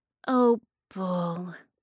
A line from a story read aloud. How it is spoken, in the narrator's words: Harmony sighed